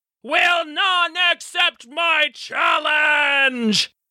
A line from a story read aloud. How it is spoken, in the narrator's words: he roared